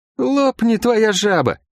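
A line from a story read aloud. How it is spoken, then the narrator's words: Bold, joyful exclamation. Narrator (Russian): воскликнул расхрабрившийся и обрадованный возможной встречей с ходящими Лук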